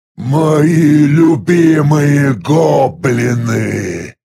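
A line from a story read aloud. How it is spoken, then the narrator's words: Gurgling creature voice. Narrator (Russian): произнес арахнит клокочущим голосом на системном языке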